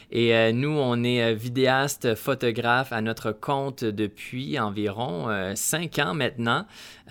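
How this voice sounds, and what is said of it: Canadian French accent. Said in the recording (French): “notre accent, vous comprendrez qu'on n'est pas européen, on n'est pas français, on est bel et bien ... canadien”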